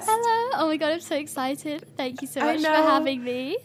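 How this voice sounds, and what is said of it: Speaks with a noticeable, charming accent. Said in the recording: “I'm freaking out about your accent. I just said that, but it's so cute. ... it's like a main character accent”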